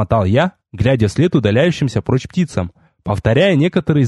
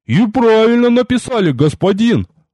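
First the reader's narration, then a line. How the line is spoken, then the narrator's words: Convinced, booming. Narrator (Russian): убежденно прогудел Рикар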